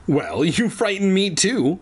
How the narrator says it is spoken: the woman exclaimed

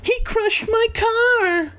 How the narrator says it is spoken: a woman screamed

